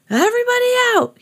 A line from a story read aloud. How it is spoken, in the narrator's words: he shouted